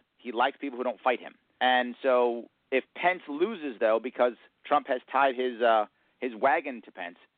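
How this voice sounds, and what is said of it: New York accent. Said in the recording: “you definitely have that New York accent going”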